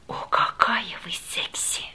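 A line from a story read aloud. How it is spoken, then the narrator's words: Passionate whisper. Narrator (Russian): он страстно прошептал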